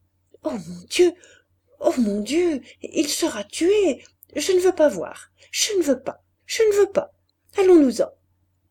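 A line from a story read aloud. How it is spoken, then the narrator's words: Anguished nervous stammering. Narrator (French): Elle répétait, nerveuse, balbutiant, toute vibrante d'angoisse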